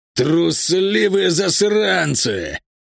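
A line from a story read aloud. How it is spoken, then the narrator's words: Growled. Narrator (Russian): прорычал он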